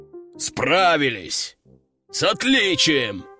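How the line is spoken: Roared. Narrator (Russian): взревел генерал

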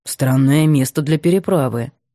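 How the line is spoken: Deep bass voice. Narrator (Russian): пробасил Сергей

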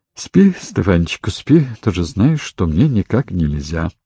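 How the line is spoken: Soft reply. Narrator (Russian): та мягко отозвалась

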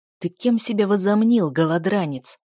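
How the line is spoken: Furious hiss in ear. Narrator (Russian): яростное шипение в ухо

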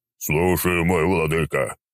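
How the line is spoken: Steamy booming drone. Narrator (Russian): выпуская густые облака пара, прогудел тот

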